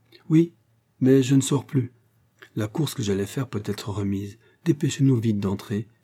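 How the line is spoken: Exclaimed. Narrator (French): s'écria Lucienne

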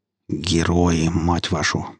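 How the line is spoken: Grumbling with a smile. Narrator (Russian): проворчал я, но на губах скользнула улыбка

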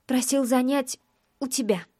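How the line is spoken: Nearly whispered. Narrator (Russian): договаривает почти шепотом

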